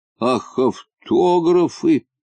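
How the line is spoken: Muttered. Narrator (Russian): пробормотал

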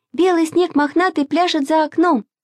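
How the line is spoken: Louder shout. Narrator (Russian): закричала Маша еще громче

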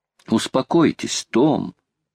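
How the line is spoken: Tender. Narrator (Russian): ласково сказала леди Элен

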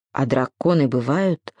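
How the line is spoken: Timid question. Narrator (Russian): робко спросил Сережик

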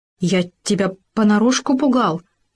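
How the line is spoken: Stammering, defensive. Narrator (Russian): запинаясь, оправдывался суслик

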